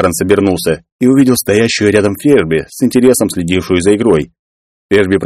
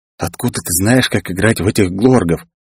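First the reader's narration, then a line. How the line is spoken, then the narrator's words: Whispering. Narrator (Russian): зашептал девушке Кларенс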